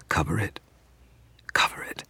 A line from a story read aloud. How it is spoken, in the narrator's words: she whispered